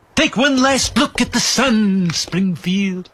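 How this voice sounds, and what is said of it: Mr. Burns impression. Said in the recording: “Didn't Burns want to block out the sun ... Can you do the voice?”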